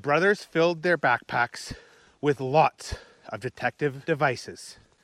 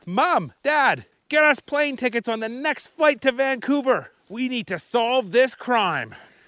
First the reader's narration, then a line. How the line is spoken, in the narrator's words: He yelled